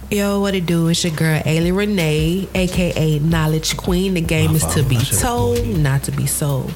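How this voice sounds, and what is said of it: Smooth radio-host voice. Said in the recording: “She got that radio voice, man. It's so smooth with it.”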